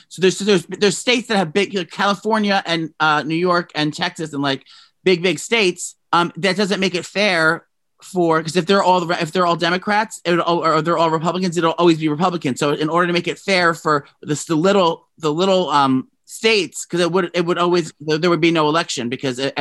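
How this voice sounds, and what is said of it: Loud, screaming speech. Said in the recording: “Why are you screaming? ... I have to lower my volume because you're screaming.”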